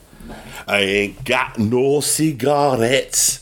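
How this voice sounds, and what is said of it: Attempted Scottish accent, sounds Yorkshire. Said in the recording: “I thought that's a pretty good Scottish accent I did there ... Don't you think that sounds Scottish? ... No. I think you sound like you, I don't know, some kind of Scottish Yorkshire”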